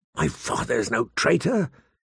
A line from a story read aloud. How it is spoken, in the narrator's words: he said hoarsely